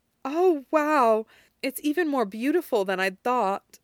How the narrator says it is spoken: she gasped

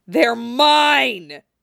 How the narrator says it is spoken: he roars

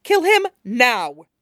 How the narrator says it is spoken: snaps

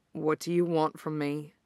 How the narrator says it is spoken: His voice was quiet, a little raspy

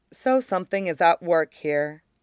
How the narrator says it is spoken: Luminara says evenly

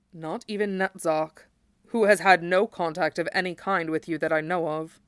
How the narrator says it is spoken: Sephiroth said grimly

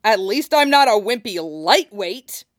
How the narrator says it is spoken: he snaps

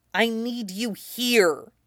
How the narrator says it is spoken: Jaime said tightly

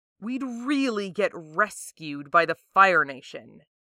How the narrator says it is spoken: Jet sneers

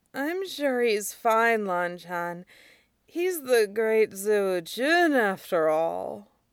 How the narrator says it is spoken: Wei Wuxian drowsily said behind him

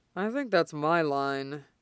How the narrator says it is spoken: he drawls

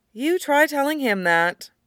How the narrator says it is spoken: Mom sighs

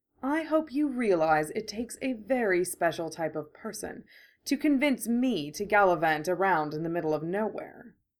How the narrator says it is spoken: Vivienne sighs

